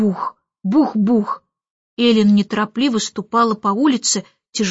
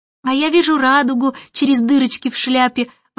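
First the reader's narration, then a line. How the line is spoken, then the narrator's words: Exclamation. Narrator (Russian): воскликнула Джейн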